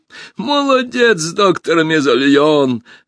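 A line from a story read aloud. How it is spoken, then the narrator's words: Loud laughter. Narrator (Russian): расхохотался узурпатор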